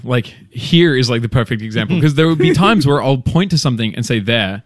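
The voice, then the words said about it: Australian accent. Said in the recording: “The funny accent is from? ... It's from Australia.”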